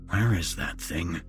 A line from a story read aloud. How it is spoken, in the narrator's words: he was mumbling